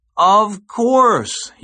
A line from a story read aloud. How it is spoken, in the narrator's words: exclaimed